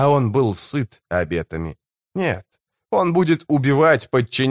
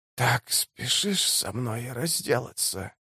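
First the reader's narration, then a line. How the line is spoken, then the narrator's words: Dry rattling voice. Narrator (Russian): спросила Сибаль сухим, дребезжащим голосом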